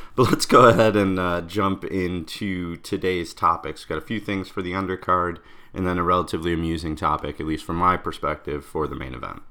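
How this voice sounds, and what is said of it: Slightly rough, sore-throat voice. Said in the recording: “you've probably picked up on the fact that my voice sounds a little bit different ... struggling with a little bit of a sore throat”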